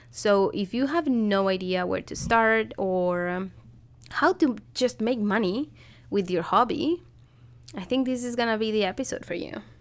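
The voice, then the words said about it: Stuffy, congested voice. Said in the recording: “If you can hear in my voice, I'm a little bit stuffy. My kids got a cold”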